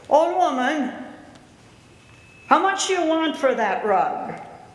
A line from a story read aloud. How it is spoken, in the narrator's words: He shouted at her